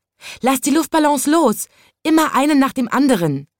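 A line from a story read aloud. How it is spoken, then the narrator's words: Called out. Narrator (German): rief es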